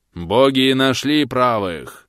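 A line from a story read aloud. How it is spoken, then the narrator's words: Solemn powerful proclamation. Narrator (Russian): торжественным мощным голосом объявил он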